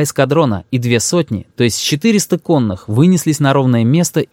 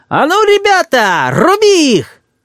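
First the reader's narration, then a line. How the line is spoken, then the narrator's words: Thin shrill shout. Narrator (Russian): Генерал тонким, визгливым голосом закричал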